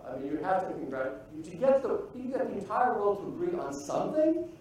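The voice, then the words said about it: Foreign accent. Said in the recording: “You probably can tell from my accent, I'm coming from a very disturbed land”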